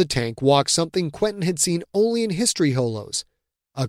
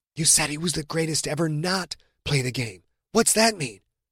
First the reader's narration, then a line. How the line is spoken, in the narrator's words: Quentin whispered to John